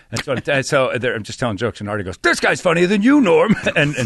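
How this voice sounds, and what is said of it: Usual voice. Nothing is said of it.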